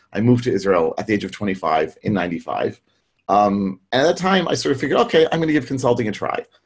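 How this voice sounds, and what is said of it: American English accent. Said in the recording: “As you can hear from my accent, I grew up in the U.S.”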